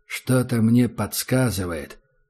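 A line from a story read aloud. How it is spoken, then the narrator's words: Muttering to himself. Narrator (Russian): пробормотал таджик себе под нос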